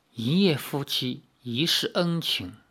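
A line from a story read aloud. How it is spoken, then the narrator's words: Soft, gentle. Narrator (Chinese): 李逍遥轻声地说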